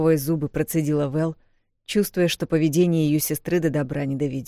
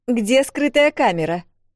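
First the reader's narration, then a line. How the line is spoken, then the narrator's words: Shout. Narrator (Russian): крикнула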